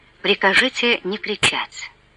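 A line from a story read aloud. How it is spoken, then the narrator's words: Quiet. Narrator (Russian): Граф тихо сказал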